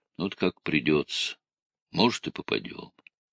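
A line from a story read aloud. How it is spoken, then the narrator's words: Sighing, then speaking. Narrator (Russian): Гаврила вздохнул и говорит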